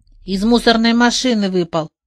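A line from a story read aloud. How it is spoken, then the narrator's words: Grumbling. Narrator (Russian): пробурчал Головешка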